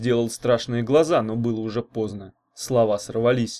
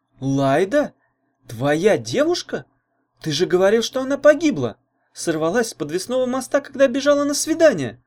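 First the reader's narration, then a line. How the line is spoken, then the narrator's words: Astonished exclamation. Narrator (Russian): пораженно воскликнула Таня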